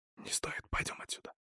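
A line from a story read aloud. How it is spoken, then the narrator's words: Whispered. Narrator (Russian): шепотом произнес Вильд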